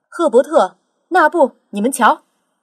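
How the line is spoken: Loud shout. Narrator (Chinese): 扯开嗓门叫道

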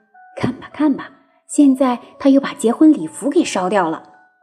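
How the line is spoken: Muttering. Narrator (Chinese): 其他仆人又嘀咕着说

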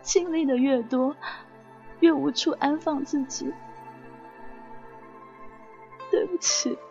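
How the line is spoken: Tearful timid voice. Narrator (Chinese): 韦小带的哭腔，诺诺的说

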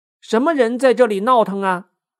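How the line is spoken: Respectful tone. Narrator (Chinese): 美猴王 恭恭敬敬的说

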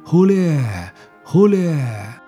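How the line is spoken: Rhythmic loud group chant. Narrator (Chinese): 众人边劳作边随着歌声的节拍高声呼喊着

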